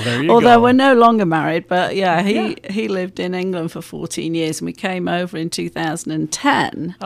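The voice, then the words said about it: English accent, not Texan. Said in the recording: “that's not a Texas accent ... I'm from England”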